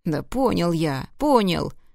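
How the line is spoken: Whining. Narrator (Russian): захныкал он

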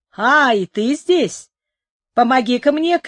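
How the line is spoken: Shouting. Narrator (Russian): крикнул он

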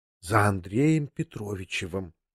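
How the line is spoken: Confidential whisper. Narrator (Russian): произнесла она конфиденциальным шепотом

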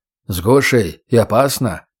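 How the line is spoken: Dismissive snort. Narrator (Russian): пренебрежительно хмыкнул егерь

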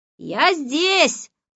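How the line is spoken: Shouted from the hallway. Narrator (Russian): прокричал из прихожей Моня

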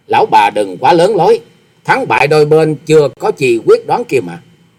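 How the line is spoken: Scoffing. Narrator (Vietnamese): cười khẩy nói

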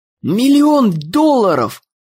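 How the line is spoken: Yelling. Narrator (Russian): вопил Дэн

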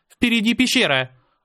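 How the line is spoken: Sharp shout. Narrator (Russian): резко крикнула Мира

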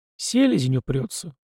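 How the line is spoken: Sigh. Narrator (Russian): вздохнул Полозов

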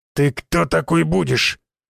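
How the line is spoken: Big man, through teeth. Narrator (Russian): Сквозь зубы процедил здоровяк

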